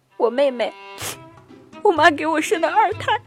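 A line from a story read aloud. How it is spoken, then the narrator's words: Mournful, near tears. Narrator (Chinese): 她哭丧着一把脸说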